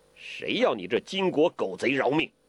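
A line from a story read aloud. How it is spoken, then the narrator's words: Loud angry cursing. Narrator (Chinese): 大声的叫骂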